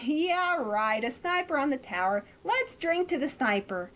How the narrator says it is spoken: Everybody starts laughing and saying

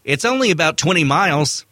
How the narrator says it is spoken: Lewis added cheerfully

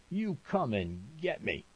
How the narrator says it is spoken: laughing

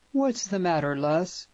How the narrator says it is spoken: urged Oliver Peyton, frowning anxiously

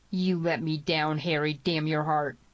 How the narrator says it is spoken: snarled Tierney

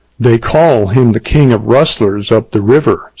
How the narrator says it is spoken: said she

